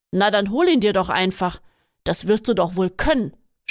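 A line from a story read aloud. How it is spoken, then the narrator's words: Snapped irritably. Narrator (German): schnauzte er ungehalten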